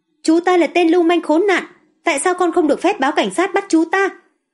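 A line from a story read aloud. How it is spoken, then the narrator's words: Sudden angry shout. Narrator (Vietnamese): Lâm Hy Thần siết chặt nắm đấm, bỗng nhiên hét to lên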